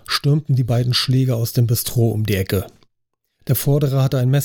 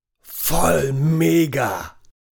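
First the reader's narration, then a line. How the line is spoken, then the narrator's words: Impressed roar. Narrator (German): brüllte der Punker beeindruckt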